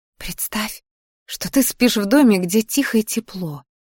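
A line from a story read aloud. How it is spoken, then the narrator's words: Whisper in ear. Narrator (Russian): шептала я ей на ухо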